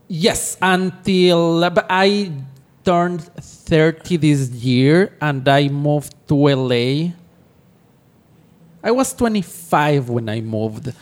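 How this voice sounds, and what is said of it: Ecuadorian-accented English. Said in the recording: “I was born and raised in Ecuador, in South America ... I know you said that as explaining the accent.”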